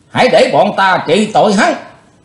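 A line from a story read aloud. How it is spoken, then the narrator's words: Shouting. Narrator (Vietnamese): từ phía sau đã có tiếng quát lên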